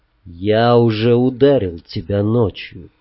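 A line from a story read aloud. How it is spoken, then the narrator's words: Quiet. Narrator (Russian): тихо сказал я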